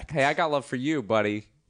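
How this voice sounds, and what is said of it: Put-on New York accent. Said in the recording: “this bad New York accent... it's not a bad New York accent”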